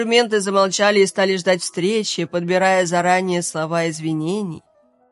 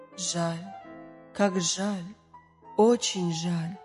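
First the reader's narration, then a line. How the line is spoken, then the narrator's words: Quiet singing. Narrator (Russian): негромко напевала каждая из музыкальных произведений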